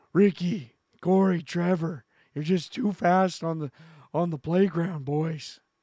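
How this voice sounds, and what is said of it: Sniveling, heavy-breathing out-of-breath voice. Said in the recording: “sniveling and breathing in heavy, sounding like I'm just come out of recess ... the default out of breath voice”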